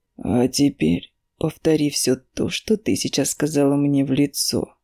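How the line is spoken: Deceptively calm. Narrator (Russian): говорит обманчиво спокойным тоном

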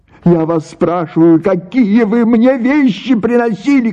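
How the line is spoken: Shouted. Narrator (Russian): крикнула Паша

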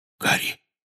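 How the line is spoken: Whispered. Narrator (Russian): прошептал он

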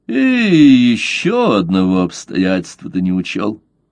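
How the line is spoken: Slow reluctant through teeth. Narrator (Russian): Медленно, словно нехотя, процедил он сквозь зубы

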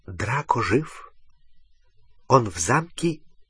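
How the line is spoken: Barely audible whisper. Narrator (Russian): Еле слышный шепот в дюйме от его уха

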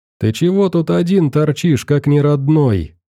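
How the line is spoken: Cheerful shout. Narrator (Russian): весело выкрикнул чей-то голос

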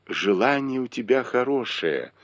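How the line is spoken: Affectionate. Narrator (Russian): ласково сказал Бао Юй

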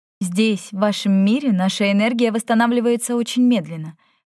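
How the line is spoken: Plain. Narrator (Russian): ответила Тора

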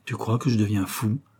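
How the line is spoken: Anguished question. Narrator (French): demanda d'un ton angoissé

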